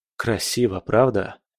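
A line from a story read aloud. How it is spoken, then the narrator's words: Fascinated mutter. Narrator (Russian): пробормотал я, завороженно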